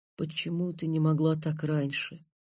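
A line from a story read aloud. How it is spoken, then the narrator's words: Incoherent whisper. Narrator (Russian): бессвязно прошептал я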